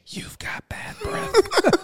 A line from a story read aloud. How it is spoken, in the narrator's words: he whispered